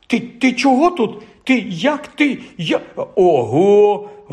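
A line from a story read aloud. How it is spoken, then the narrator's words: Astonished exclamation. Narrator (Ukrainian): вражено вигукнув Рон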